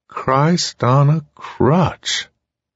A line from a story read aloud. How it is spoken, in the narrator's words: the flatline drawled